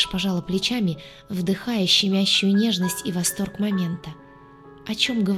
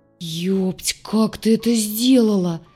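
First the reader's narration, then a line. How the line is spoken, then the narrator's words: Near groan. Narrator (Russian): почти простонал док сзади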